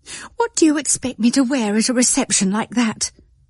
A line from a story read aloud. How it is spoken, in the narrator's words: in exasperation and exclaimed petulantly